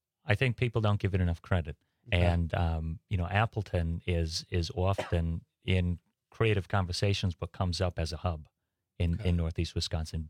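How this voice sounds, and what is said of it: East Coast accent, slightly British. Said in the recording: “accent's from? ... East Coast. ... kind of sounds East Coast. Kind of sounds a little British. Doesn't sound Wisconsin. ... I get British too.”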